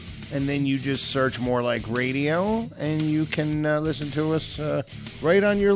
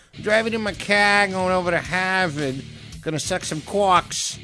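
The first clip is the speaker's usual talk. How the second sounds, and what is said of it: Put-on Boston accent. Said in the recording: “for anybody who lives up in the Boston area ... that's a fucking fun accent”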